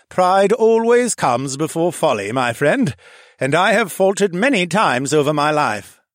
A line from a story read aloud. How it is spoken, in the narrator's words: the noble Asher said, and I could actually hear the wisdom in his rolling thunder voice as if he was older than time itself